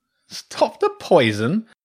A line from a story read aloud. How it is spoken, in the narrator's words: the badger chuckled